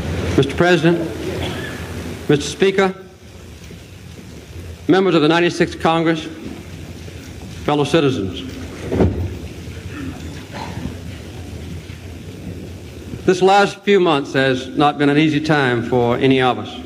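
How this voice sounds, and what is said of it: Southern American accent. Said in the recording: “he had a Southern accent. This was how Jimmy Carter sounded”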